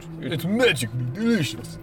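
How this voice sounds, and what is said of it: Put-on Russian accent. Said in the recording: “You gotta say like a Russian accent.”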